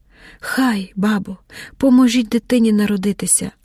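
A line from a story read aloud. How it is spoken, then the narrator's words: Weak whisper. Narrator (Ukrainian): прошепотіла слабко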